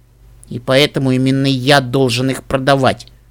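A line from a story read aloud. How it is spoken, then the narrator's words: Grumble. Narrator (Russian): проворчал Нед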